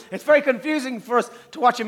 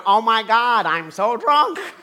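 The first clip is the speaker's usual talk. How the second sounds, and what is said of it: Imitates American actors' voice. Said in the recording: “American actors on television going”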